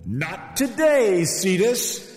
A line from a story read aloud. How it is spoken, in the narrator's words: the voice cried